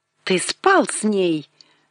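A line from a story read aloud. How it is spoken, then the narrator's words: Exclaiming. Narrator (Russian): воскликнула Блодуэн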